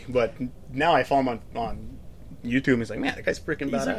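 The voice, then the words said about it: Slight noticeable accent. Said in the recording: “I have a bad accent ... I can hear it a little bit now that you've been talking for a little bit”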